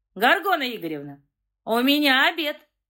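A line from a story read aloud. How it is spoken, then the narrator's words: Loud, booming announcement. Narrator (Russian): Зычным голосом оповестил странный компьютерщик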